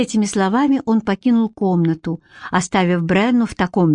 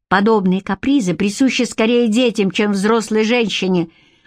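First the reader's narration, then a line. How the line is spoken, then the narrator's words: Irritated curt remark. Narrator (Russian): раздраженно бросил он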